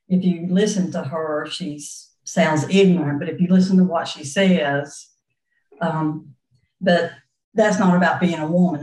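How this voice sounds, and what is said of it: Southern American accent. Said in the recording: “if they hear my accent ... That's just about being a Southerner.”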